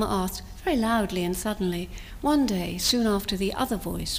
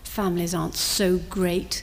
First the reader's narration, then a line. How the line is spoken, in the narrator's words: the little voice grumbled